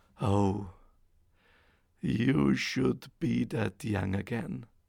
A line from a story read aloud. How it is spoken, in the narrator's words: sighed the old man